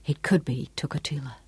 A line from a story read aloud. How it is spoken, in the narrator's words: repeated softly, speaking almost to himself, as though he was trying to will it to be so